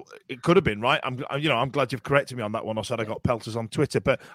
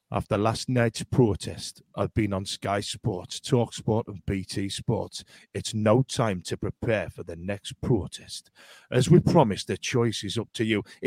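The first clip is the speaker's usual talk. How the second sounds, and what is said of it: Sinister put-on Wearside accent. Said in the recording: “in his little Wearside accent, really sinister sounding voice notes ... If I do the accent ... It was really sinister when it went ... why are you saying it like that?”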